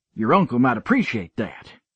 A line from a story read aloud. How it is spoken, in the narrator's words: I snapped